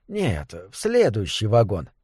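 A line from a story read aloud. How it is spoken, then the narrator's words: Quiet conductor. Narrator (Russian): тихо сказал кондуктор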